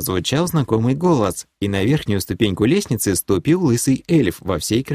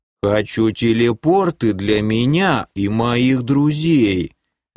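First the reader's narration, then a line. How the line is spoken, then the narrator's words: Slow, dead-serious drawl. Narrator (Russian): Медленно, но предельно серьезно протянул Орбит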